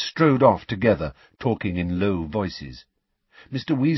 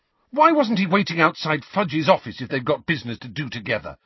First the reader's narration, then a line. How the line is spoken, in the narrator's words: Harry burst out furiously